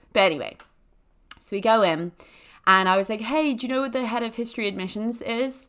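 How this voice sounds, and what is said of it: Usual voice. Nothing is said of it.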